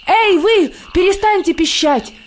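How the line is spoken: Shout. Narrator (Russian): крикнул он

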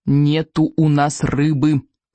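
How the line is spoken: Through clenched teeth. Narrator (Russian): повторил Икинг сквозь зубы

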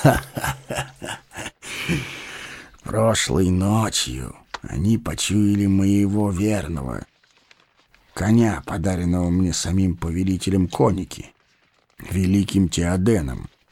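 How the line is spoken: Plain. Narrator (Russian): сказал он

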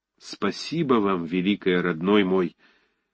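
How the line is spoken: Trembling tearful voice. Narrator (Russian): сказал он дрожащим голосом, и его глаза вдруг заблестели слезами

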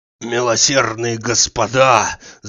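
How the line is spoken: Hoarse wheeze. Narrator (Russian): захрипел он

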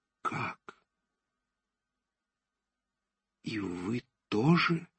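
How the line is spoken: Quiet, terrified. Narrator (Russian): тихо, с выражением безумного страха в глазах, произнес, наконец, Назанский

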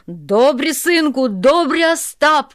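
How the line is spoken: Shout. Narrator (Russian): кричал Тарас

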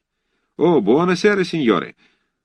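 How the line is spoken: Cheerful, in unison. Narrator (Russian): весело разом отозвались итальянцы

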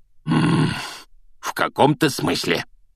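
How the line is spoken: Growl. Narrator (Russian): прорычал дядя Вернон

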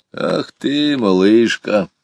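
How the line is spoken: Good-natured laugh. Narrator (Russian): добродушно засмеялся Иван Кузьмич

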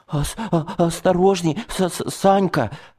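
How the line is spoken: Stammering warning. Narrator (Russian): Начал я заикаться, чего со мной сроду не было

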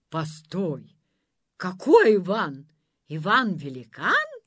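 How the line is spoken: Monster's exclamation. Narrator (Russian): воскликнуло чудовище

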